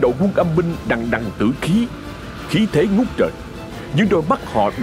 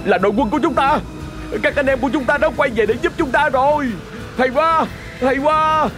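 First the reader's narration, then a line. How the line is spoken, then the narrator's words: Proud soldiers shouting. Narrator (Vietnamese): Những người lính của quân phó tướng hét lên tự hào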